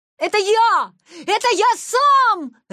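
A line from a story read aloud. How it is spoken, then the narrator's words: Joyful shout. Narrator (Russian): радостно закричал Витя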